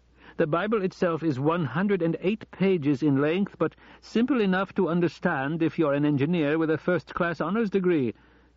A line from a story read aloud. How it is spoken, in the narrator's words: he laughed again